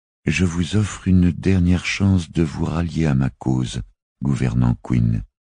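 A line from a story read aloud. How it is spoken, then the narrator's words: Calm declaration. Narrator (French): déclara-t-elle d'une voix calme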